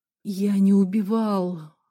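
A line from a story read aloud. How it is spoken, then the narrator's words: Strained, forced out. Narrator (Russian): выдавил Омар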